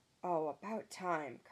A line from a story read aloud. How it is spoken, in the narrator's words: Carson sighed